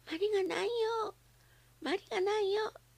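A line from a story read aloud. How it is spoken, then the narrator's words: Said, then bursts into tears. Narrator (Japanese): と言うとばあちゃんの膝に顔をうずめて泣き出してしまいました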